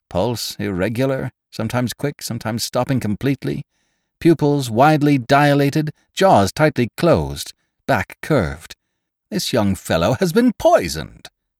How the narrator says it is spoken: he cried

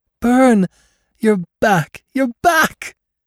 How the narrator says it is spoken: she cried in joy that rang of her loneliness

